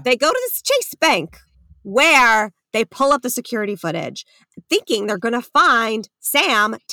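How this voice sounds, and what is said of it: Long Island accent. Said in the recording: “I'm from Long Island and love my Long Island accent.”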